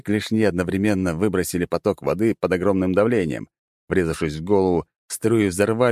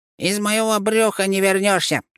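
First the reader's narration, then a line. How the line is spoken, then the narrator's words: Squeaky devil. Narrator (Russian): пискнул чертила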